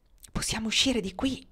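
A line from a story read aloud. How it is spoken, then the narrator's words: Whispered. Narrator (Italian): bisbigliò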